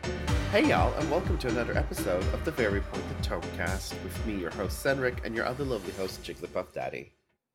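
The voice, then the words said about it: Sick, weird-sounding voice. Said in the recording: “My voice is a bit weird because I'm unfortunately under the influence of sickness.”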